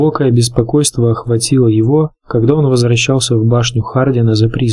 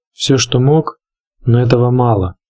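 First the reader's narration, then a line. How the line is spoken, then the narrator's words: Plain. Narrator (Russian): сказал Джон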